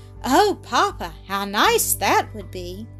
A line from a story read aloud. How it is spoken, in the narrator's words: exclaimed the child, smiling through her tears